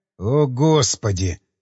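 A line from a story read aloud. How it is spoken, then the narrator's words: Sighing. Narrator (Russian): вздохнул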